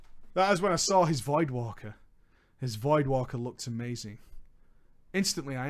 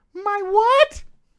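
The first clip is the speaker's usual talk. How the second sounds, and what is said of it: Childlike put-on voice. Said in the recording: “have to do a kiddie voice”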